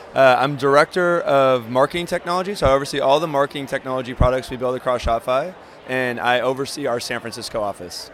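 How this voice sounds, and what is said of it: Slightly raspy, hoarse voice. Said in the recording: “my throat's a little raspy from all the talking for the last 2 days”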